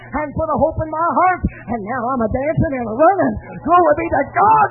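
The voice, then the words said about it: Shouting, hollering preacher. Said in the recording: “That's why I'm shouting. That's why I'm hollering victory.”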